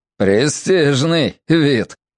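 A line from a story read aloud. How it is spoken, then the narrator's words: Sarcastic remark. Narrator (Russian): язвительно заметил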